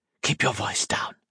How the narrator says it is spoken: Monturiel whispered

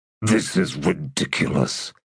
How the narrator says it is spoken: he muttered under his breath

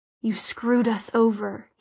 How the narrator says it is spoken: he murmured

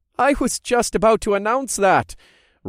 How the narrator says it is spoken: chuckled

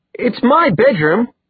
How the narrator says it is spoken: Alec spluttered

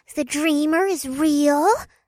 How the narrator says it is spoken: the furbay squeaked

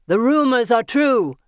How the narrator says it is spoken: he shouts to his friends

